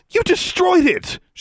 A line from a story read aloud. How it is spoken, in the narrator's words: she shouted